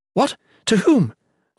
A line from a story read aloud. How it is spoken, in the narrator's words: Volney exclaimed